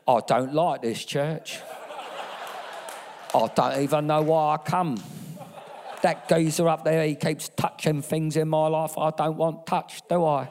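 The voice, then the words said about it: Put-on accent. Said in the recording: “I'm trying to do an accent, that probably doesn't relate to anybody here.”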